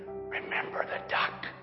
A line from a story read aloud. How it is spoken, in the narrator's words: Then she whispered in his ear